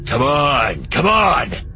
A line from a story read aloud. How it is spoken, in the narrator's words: Jom growls